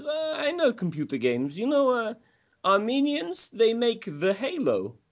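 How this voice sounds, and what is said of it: Crude Russian accent. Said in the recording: “It'll be a crude Russian accent.”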